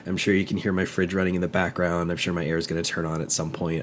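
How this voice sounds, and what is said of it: Congested, stuffy-nosed voice from a cold. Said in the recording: “I've unfortunately come down with some kind of a cold ... only one of my nostrils is currently working”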